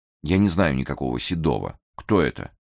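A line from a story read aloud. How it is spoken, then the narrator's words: Skeptical patient sigh. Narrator (Russian): Большой Сосо скептически пожевал губами, терпеливо вздохнул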